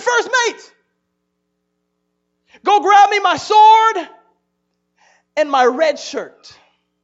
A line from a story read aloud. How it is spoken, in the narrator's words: he yelled to his first mate, he said